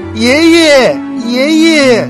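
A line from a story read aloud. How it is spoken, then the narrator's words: Calling out repeatedly. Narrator (Chinese): 喊了很久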